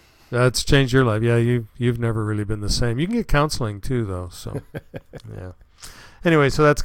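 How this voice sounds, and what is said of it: Usual voice. Nothing is said of it.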